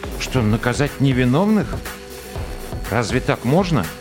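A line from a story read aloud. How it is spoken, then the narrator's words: Sad wry chuckle. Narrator (Russian): Сержант Антон печально усмехнулся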